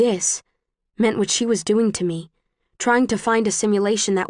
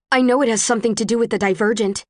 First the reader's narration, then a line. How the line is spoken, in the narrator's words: I blurt out